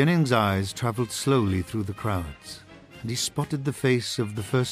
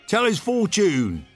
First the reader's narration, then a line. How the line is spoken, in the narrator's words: shouted a reporter